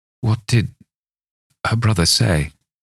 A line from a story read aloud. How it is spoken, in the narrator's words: I asked faintly